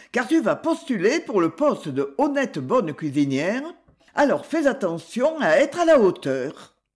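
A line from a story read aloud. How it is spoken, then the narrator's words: Curt. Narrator (French): dit sèchement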